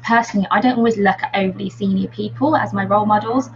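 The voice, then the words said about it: Slight Brummie accent. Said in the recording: “have a bit of a Brummie accent like I do”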